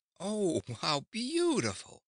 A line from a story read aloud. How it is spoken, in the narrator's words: cried Ozma, greatly delighted